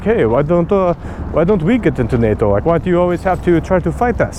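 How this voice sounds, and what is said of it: Poor put-on Russian accent. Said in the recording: “that's my terrible Putin accent.”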